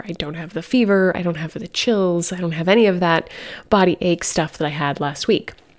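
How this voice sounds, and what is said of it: Slightly stuffy, congested voice. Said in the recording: “You could probably still hear in my voice that I'm a little stuffy”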